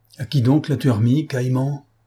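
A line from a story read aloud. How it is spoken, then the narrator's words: Furious exclamation. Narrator (French): s'écria monsieur Printemps furieux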